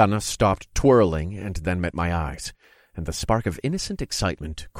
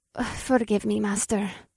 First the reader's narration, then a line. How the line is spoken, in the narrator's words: she muttered